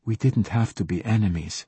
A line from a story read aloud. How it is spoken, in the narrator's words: she said softly